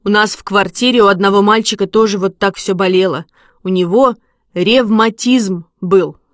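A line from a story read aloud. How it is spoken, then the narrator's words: Plain. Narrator (Russian): сказал Вася Ерохин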